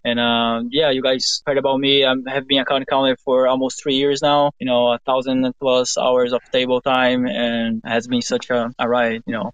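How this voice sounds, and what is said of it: Speaks with an accent. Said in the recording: “you guys probably recognize me by the accent.”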